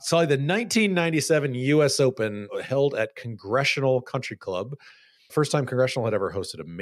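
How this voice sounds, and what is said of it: Usual voice. Nothing is said of it.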